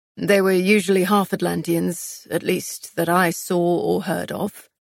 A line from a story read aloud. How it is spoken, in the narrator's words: Castile answered, his voice rough